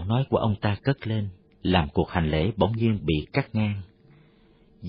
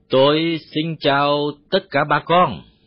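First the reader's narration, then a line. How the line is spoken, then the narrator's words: Loud, foreign-accented voice. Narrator (Vietnamese): Bằng cái giọng oang oang lơ lớ, người Tây nói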